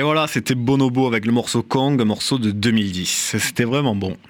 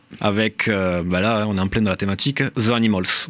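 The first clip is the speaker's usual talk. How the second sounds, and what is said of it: Good put-on accent. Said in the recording (French): “Très bel accent ... toujours, t'as vu, je me perfectionne. Accent.”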